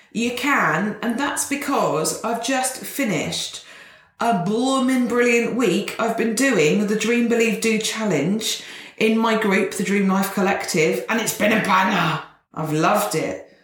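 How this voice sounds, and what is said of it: Energetic, upbeat voice. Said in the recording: “Can you hear the energy in my voice?”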